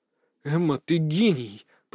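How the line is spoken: Awed mutter. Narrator (Russian): пробормотал я в полной мере, осознав, что именно она для меня сотворила

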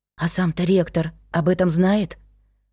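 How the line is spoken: Whispering. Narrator (Russian): Почему-то шепотом уточнила я

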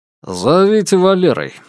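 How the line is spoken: Snorting. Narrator (Russian): хмыкнул Маклер

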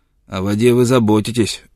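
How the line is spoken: Snapping. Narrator (Russian): огрызнулся он

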